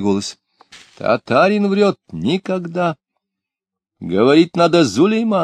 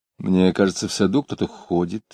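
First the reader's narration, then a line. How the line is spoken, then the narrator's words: Low voice. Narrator (Russian): вполголоса сказала она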